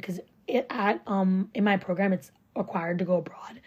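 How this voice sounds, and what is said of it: Voice cracks. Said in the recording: “my voice cracked.”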